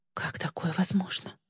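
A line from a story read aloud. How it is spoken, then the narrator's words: Elated, fearful whisper. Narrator (Russian): прошептала Ли, испытывая ликование и страх одновременно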